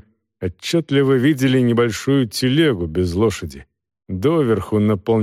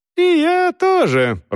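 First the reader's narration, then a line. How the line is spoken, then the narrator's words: High-pitched voice. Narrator (Russian): продолжал человек высоким голосом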